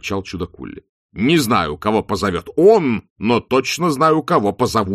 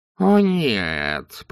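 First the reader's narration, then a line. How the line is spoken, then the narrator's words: Groaning. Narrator (Russian): простонал главный философ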